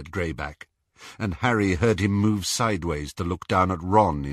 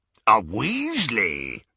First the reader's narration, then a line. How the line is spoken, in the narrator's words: rasped Greyback